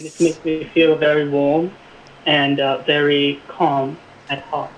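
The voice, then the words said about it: Put-on British accent. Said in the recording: “I chose to do this accent ... it's like British”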